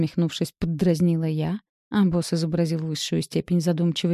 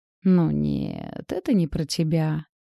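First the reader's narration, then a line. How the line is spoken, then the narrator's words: Smirking drawl. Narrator (Russian): ухмыльнувшись, протянул Антон Петрович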